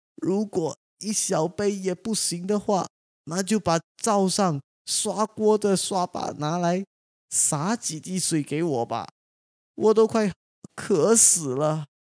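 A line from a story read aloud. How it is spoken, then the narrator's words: Stubborn pleading. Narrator (Chinese): 雷公仍然固执的哀求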